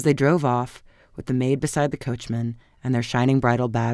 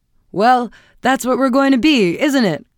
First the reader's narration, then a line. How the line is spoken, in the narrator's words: cried her husband gaily